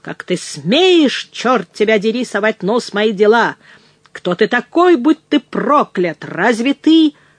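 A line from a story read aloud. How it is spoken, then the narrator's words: Roared. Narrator (Russian): проревел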